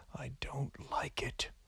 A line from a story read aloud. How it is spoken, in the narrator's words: said a woman